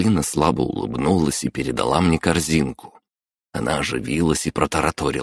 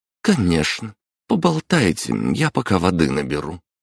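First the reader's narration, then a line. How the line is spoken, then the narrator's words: Slightly tense voice. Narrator (Russian): она сдержалась и слегка напряженным голосом сказала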